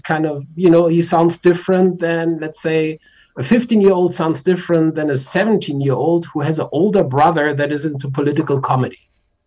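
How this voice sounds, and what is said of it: German accent. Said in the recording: “one can tell by your accent that you're not a native of Vancouver... But you grew up in Germany.”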